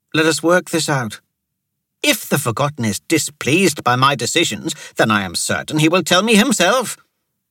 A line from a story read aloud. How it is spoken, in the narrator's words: Pankaj snapped